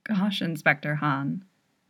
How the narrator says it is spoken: Dongsik murmurs

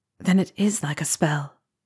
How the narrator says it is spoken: Harry said softly

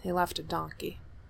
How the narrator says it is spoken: he mutters

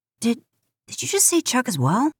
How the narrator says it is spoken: Sam asks hesitantly

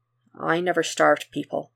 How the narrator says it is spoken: Superman says

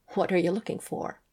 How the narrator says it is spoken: Michael asked her, with a soft laugh

